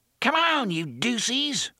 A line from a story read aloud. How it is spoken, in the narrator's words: a relatively young man snarled